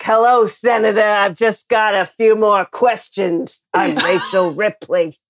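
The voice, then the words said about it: Put-on accent. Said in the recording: “great accent”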